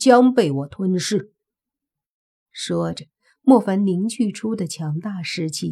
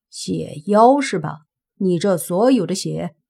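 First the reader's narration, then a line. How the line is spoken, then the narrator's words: Calm, indifferent. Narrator (Chinese): 莫凡淡淡的说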